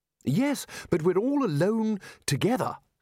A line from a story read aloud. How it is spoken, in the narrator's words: said Ridcully urgently